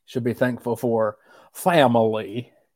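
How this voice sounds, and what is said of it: Exaggerated Southern accent. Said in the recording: “let me pull on my Southern accent here, which I already have naturally, but let me get it a little bit further”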